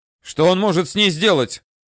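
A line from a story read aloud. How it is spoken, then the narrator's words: Shouted. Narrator (Russian): Взбегая по следующей лестнице, он крикнул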